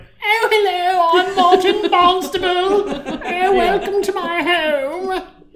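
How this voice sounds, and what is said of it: Exaggerated posh British accent. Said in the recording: “this ridiculous British accent.”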